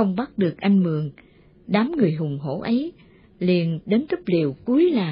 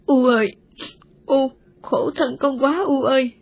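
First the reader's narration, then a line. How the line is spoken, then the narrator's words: Sobbing like a child. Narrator (Vietnamese): Cô Ngơ mếu máo khóc như đứa trẻ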